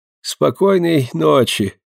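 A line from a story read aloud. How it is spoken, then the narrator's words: Tired voice, repeating. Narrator (Russian): усталым голосом повторил он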